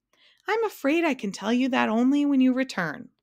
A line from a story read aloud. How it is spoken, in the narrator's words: cried the king